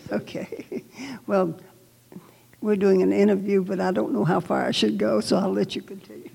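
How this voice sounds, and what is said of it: Southern Georgia accent. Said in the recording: “can you tell she's from Georgia? She's got that accent thing going on still to this day. I've always loved ... accent.”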